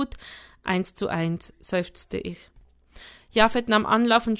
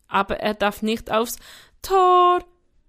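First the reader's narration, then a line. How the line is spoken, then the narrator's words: Calling out. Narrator (German): rief Sam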